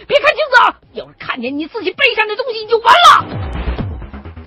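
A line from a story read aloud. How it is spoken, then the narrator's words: Shouting. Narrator (Chinese): 哪个人在屋子里边冲我喊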